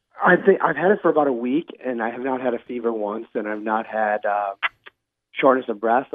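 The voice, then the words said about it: Weird, unusual-sounding voice. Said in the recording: “even sound like you ... just my voice is weird”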